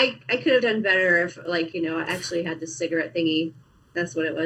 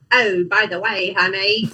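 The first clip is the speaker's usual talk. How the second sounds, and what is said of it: Weak put-on British accent. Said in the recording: “let me have my British accent... That's a British accent... It did not change that much, did it?”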